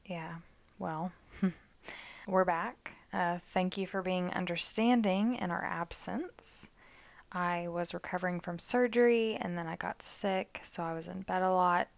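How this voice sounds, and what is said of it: Slightly raspy voice. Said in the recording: “Your voice sounds a little raspy.”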